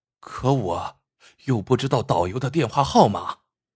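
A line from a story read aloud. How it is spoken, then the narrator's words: Muttering. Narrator (Chinese): 栾高嘀咕道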